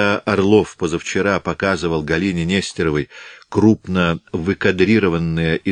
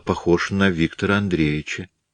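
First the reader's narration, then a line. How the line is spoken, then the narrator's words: Uncertain, half-questioning. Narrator (Russian): сказала неуверенно, полувопросительно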